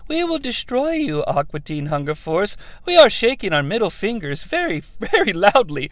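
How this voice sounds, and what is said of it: Angry Mooninite voice from Aqua Teen. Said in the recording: “Not the one with the high voice, but the one who's like ... the one that's very angry ... one of the goddamn Moonanites”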